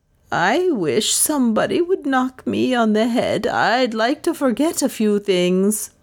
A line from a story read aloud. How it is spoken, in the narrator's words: moaned Lizzie